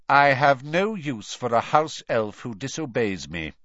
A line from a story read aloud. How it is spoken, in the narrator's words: he said coldly